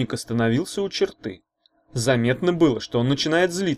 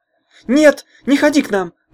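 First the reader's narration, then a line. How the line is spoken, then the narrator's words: Screaming. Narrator (Russian): завопила Таня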